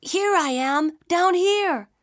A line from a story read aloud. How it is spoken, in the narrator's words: shouted Isunboshi